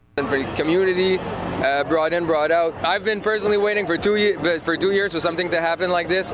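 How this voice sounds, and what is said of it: Slight Quebecois accent. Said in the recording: “with a slight Quebecois accent”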